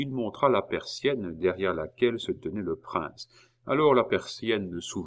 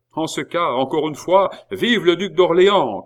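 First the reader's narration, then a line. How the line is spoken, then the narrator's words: Shouted. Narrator (French): cria Billot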